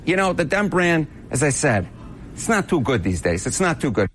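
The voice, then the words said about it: Goodfellas-style New York accent. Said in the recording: “I love that accent. Sounds like he's out of Goodfellas.”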